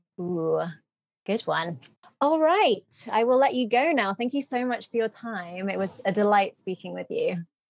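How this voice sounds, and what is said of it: Proper British accent. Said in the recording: “You definitely have the best British accent that I've heard in a long time. ... It's so proper. ... I was probably making it a little more proper”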